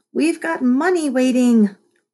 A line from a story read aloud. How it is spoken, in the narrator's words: wailed